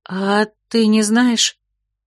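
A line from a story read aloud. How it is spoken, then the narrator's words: Timid question. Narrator (Russian): робко спросила Терлина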